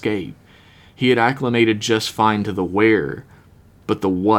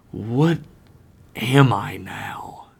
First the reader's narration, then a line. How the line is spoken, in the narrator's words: whispered to himself